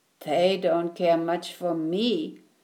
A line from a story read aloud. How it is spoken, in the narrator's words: said Alexander sadly